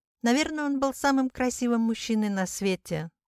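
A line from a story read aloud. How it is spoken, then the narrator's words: Sighing. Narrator (Russian): вздохнула Пеппи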